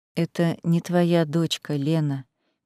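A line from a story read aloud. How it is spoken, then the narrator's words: Soft, coaxing. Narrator (Russian): мягко, словно уговаривая, произнес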